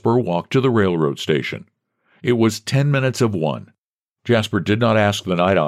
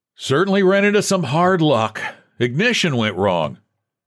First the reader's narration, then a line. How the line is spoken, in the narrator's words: Jasper jovially shouted to the attendant